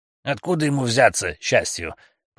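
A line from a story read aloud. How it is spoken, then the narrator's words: Grumbling mutter. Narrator (Russian): пробурчал Дэвис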